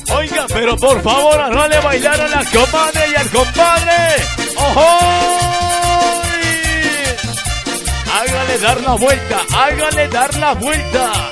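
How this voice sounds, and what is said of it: Imitates a dance band announcer voice. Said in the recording (Spanish): “voy a hacer la voz de los que hacen de orquesta”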